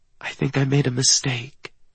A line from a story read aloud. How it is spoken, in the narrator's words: whispers the words when she says